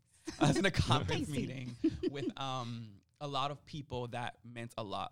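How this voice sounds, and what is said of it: Emotional, near-tearful voice. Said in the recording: “getting emotional ... Please don't cry.”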